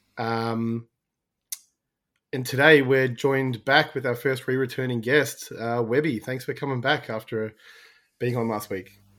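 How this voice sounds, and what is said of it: Strained, worn-out voice. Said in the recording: “My voice is a bit shot”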